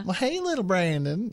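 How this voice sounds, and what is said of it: Put-on country Southern accent. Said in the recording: “more of a southern accent? ... Probably a little more country.”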